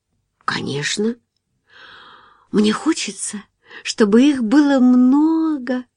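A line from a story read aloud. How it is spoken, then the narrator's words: Melodious drawl. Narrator (Russian): певуче протянула она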